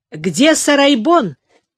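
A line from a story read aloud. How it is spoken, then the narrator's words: Shout. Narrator (Russian): крикнул Улугбек сыну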